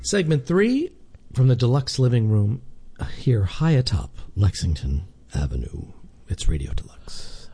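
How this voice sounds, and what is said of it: Polished radio announcer voice. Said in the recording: “You're really getting that radio voice down.”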